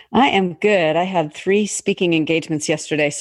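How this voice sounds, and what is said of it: Slightly gravelly, hoarse voice. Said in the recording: “my voice is a little gravelly”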